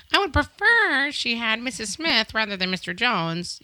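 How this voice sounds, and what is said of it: Imitated voice of a fussy parent. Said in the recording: “that was my imitation of a parent ... Such character work.”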